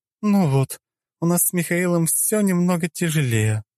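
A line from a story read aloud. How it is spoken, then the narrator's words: Sighing. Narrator (Russian): вздохнула Клео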